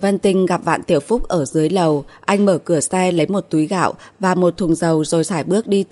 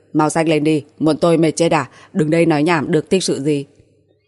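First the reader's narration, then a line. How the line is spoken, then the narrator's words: Laughing. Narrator (Vietnamese): Vạn Tiểu Phúc bật cười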